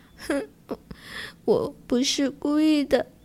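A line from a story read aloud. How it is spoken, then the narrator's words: Sobbing. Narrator (Chinese): 小金丝雀哭哭啼啼地说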